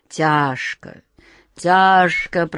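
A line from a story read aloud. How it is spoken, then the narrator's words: Moaning. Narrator (Russian): простонал Каргор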